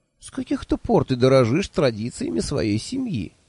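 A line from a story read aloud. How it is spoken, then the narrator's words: Sarcastic question. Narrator (Russian): ехидно спросил я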